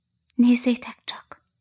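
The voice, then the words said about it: Whispered line. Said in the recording (Hungarian): “Suttogta.”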